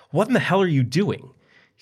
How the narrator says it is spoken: He screamed and cried out

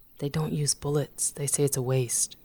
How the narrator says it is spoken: whispered women

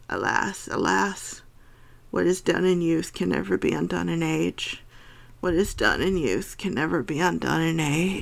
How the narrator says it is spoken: muttering low, but muttering always

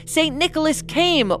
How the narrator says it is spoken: cried out and said

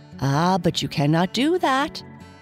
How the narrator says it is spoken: cried Daddy Longlegs suddenly

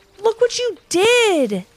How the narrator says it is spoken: shouted Levi and Ivy together

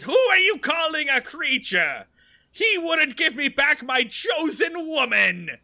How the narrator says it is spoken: In the most like Joker voice possible, Ernest screeches

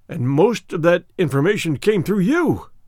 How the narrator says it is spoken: he cried

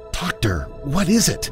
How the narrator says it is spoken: whispered

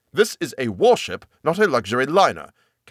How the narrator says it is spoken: Cassidy snapped

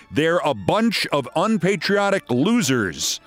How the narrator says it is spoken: Piers Morgan says

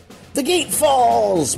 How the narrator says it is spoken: yelled

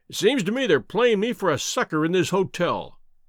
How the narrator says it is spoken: he cried

